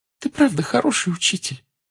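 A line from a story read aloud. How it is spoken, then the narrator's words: Smiling through tears. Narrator (Russian): Чжоу улыбнулась сквозь слезы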